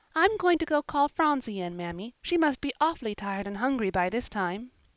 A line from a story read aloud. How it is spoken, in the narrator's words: Polly said merrily